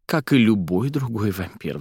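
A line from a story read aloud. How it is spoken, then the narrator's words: Sighing. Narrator (Russian): вздохнула Фелла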